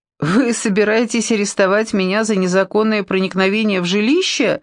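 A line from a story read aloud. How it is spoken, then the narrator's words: Laughing. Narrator (Russian): рассмеялась я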